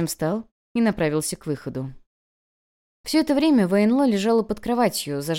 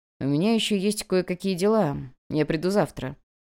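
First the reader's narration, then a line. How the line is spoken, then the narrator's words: Calm tone, emperor. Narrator (Russian): Спокойным тоном император произнес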